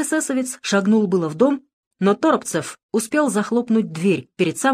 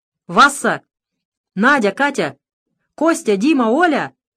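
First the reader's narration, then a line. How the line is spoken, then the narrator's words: Shouting. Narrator (Russian): закричал Торопцев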